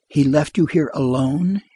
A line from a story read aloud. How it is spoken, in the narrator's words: she murmured